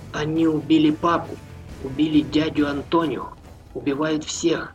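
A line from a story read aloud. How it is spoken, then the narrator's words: Youth whispering. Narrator (Russian): прошептал юнец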